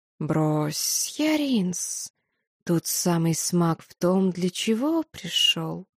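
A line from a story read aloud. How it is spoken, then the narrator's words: Serpent hissing. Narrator (Russian): прошипел змей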